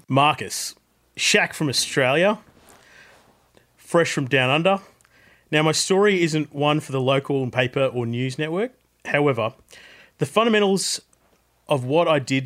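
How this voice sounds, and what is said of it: Put-on Australian accent. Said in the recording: “I've been practicing my Australian voice. ... in my best Australian accent.”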